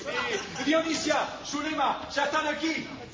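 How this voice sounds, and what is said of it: Shouting. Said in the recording (Spanish): “¡No grites! ¡No grites”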